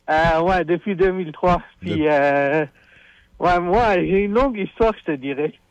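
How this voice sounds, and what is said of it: Non-native foreign accent in French. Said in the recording (French): “de par ton accent, je dénote que t'es probablement pas né ici ... un accent d'importé, comme qu'ils disent”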